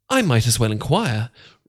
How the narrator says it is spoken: replied she

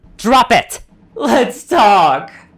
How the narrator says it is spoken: the stallion cackled in reply

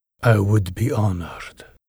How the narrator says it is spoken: he purred in her ear

